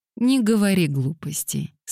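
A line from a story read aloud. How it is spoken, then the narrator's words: Calm. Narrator (Russian): спокойно сказала Лилиан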